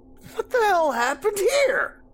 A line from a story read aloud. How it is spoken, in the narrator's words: Ken yelled